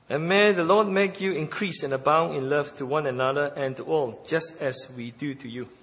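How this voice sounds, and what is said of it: British accent. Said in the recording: “You got some British accent anyway.”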